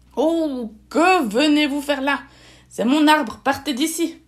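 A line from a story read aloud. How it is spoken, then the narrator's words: Owl growling. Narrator (French): gronda la chouette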